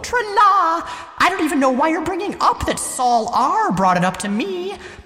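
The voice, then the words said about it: High falsetto voice. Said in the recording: “start speaking in falsetto!”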